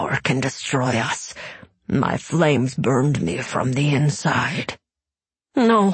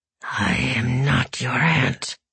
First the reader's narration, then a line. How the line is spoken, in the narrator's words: Joris growled